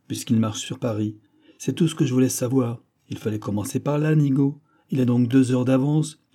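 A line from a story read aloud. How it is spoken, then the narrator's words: Exclaimed. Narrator (French): s'écria D'Artagnan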